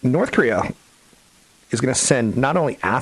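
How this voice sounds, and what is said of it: Usual voice. Nothing is said of it.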